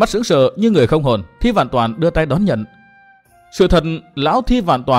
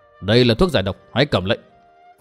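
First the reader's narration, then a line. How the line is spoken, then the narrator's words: Cold speech. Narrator (Vietnamese): Độc Trung Chi Độc lạnh lùng nhìn Thi Vạn Toàn nói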